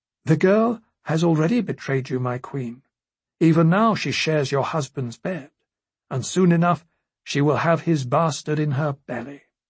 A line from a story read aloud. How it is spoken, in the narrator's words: the White Worm said in a soft voice